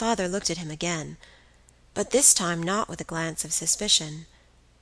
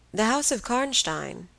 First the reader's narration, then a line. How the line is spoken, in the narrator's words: he said